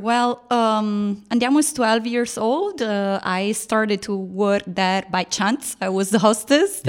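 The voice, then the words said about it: Italian accent. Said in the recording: “in case you guys didn't understand from my accent ... I am Italian, not Russian, like everybody else think”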